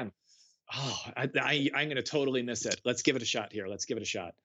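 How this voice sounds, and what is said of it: Usual voice. Nothing is said of it.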